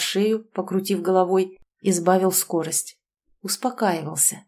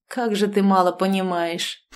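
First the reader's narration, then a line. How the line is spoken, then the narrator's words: Scoffing. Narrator (Russian): хмыкнул Дмитрий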